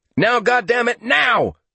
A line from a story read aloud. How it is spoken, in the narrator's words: Small yelled